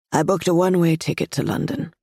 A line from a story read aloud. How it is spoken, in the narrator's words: she says